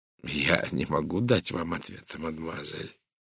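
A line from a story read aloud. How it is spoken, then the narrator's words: Quiet. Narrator (Russian): тихо сказал сыщик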